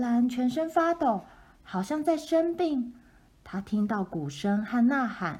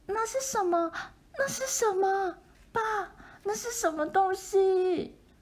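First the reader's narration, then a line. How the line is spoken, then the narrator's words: Shrieking. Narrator (Chinese): 他尖叫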